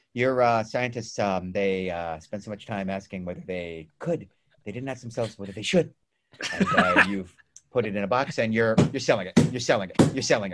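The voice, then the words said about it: Imitates another person's voice. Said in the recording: “Jeff Goldblum impersonation”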